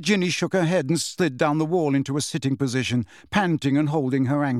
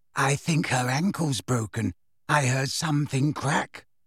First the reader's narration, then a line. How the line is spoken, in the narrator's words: whispered Luna